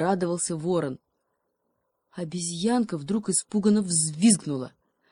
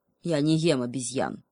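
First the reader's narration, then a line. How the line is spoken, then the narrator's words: Sullen wolf growl. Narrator (Russian): угрюмо прорычал волк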